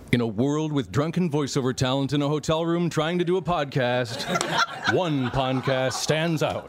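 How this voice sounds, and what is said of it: Movie trailer announcer voice. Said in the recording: “give us your best movie trailer voice”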